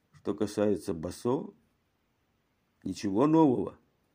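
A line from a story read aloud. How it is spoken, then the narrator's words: Hesitant quiet question. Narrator (Russian): он после минутного колебания тихо спросил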